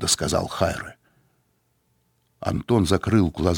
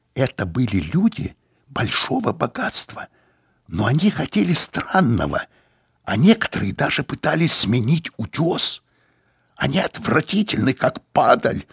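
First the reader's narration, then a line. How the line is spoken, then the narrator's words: Loud. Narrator (Russian): сказал он громко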